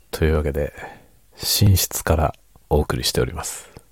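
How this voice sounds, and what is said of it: Speaking in a quiet hushed voice. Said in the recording (Japanese): “深夜の小声で雑談コーナーです”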